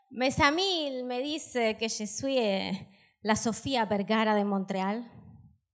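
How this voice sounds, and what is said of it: South American Spanish accent in French. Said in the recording (French): “Me yo viene de América del Sur... c'est à cause de mon accent”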